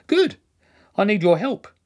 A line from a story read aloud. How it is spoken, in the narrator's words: said cheerfully